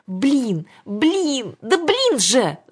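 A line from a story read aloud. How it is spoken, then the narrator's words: Angry shout. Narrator (Russian): закричала Александра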